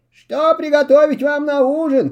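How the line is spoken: Calling after them. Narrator (Russian): крикнула им вдогонку Лина

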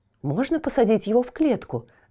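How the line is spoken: Rapid chatter. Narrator (Russian): затараторил Тильтиль

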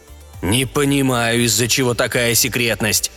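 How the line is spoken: Grumbled. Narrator (Russian): проворчал президент

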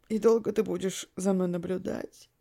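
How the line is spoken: Slightly hoarse male voice. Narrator (Russian): проговорил блондин немного хрипловатым голосом

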